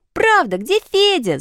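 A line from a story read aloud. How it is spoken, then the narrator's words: Children shouting. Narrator (Russian): закричали ребята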